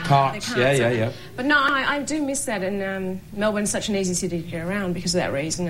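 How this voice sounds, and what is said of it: Australian accent. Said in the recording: “You're not American, are you? I can tell from your voice. ... I'm from Australia, Melbourne.”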